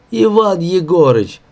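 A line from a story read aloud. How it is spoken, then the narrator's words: Pleading. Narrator (Russian): взмолился Юлька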